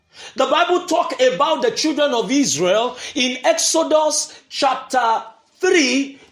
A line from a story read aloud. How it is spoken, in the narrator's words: they cried